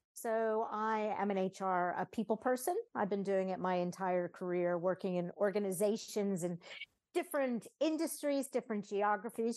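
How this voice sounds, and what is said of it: American accent. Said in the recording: “You can tell I have an American accent”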